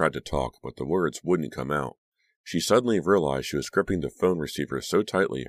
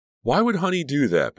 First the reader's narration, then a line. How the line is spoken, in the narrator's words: Becca cried